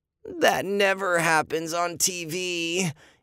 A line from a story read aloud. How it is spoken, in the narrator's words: Andy moaned